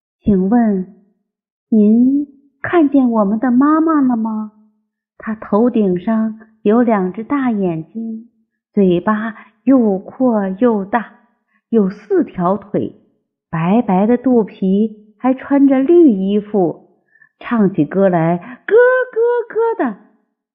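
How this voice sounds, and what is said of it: Quiet, soft-spoken question. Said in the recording (Chinese): “小声的问”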